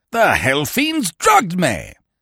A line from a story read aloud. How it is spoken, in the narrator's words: he shouted